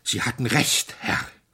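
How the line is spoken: Panting. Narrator (German): keuchte er

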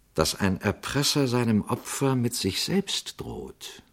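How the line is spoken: Priest's soft question. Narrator (German): fragte Pater Braun leise

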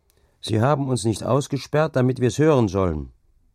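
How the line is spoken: Called back. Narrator (German): rief er zurück

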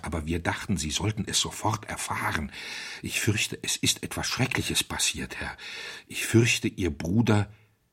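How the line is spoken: Hoarse whisper. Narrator (German): flüsterte heiser

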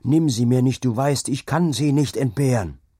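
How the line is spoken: Screamed. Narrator (German): schrie er

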